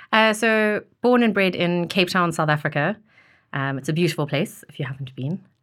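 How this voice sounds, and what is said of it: Non-British accent. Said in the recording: “we can tell from your accent you're not British”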